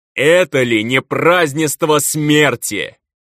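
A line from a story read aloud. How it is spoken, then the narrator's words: Shout to the sky. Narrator (Russian): Закричал в небо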